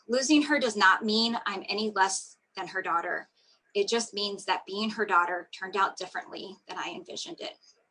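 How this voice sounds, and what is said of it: Choked-up, emotional voice. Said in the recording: “It gets me a little choked up”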